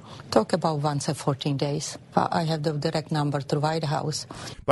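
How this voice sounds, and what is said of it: Strong accent, hard to understand. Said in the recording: “I have a terrible time understanding her through that accent.”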